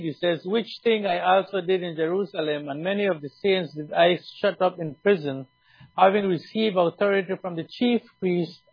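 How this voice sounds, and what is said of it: Speaks with a noticeable accent. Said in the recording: “I hope that you guys understand my accent.”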